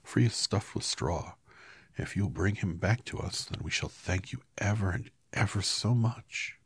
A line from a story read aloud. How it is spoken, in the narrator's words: said Dorothy eagerly